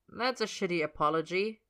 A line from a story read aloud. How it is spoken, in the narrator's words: he says dryly